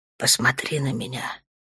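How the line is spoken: Gentle. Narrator (Russian): мягко

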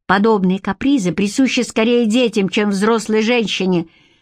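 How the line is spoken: Irritated curt remark. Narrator (Russian): раздраженно бросил он

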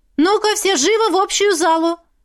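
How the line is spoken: Loud woman's command. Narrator (Russian): Громко скомандовала встретившая нас женщина

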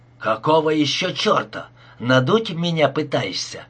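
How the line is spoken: Angry close hiss. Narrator (Russian): прошипел он, приблизив ко мне багровевшее лицо

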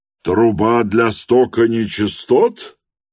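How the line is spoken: Loud inquiry. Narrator (Russian): громко осведомился доктор

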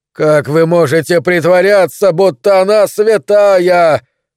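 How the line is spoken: Shouting while running. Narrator (Russian): кричал на бегу

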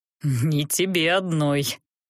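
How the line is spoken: Unsympathetic snort. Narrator (Russian): хмыкнул колдун, без особого сочувствия

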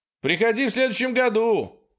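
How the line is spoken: Shouted after someone. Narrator (Russian): крикнул он ей в спину

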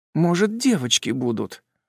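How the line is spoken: Faint reproachful rustle. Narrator (Russian): шелестит еле слышно, но с укором

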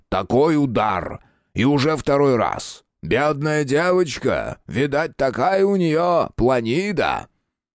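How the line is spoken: Loud, heard by all. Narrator (Russian): Произнесено это было достаточно громко, так что услышали все остальные за столом

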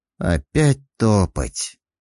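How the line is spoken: Sighing. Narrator (Russian): вздохнул разведчик

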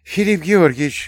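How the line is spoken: Babbling. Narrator (Russian): залепетала Ивернева

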